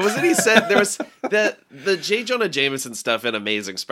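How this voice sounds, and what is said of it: Usual voice. Nothing is said of it.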